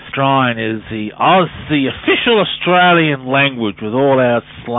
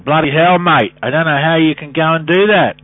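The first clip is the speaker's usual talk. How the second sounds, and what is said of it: Thick Australian accent. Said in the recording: “bit of thick Aussie accent for you”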